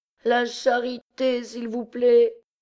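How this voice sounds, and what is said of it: Plaintive, pitiful begging tone. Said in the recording (French): “continua d'un accent lamentable”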